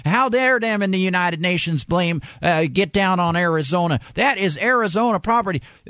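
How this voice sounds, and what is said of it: Put-on mocking accent. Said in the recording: “I apologize for the accent.”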